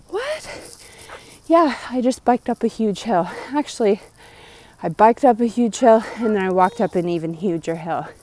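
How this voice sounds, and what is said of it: Out of breath. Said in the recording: “out of breath host ... Out of breath.”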